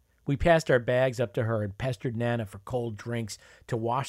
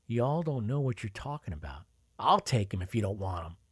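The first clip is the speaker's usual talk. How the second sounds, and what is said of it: Southern US accent. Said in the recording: “her partially buried southern accent reasserting itself”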